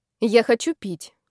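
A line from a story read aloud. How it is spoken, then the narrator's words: Grumbling. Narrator (Russian): буркнула я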